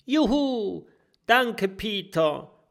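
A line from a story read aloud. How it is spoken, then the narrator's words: Relieved little dragon call. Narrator (German): ruft der kleine Drache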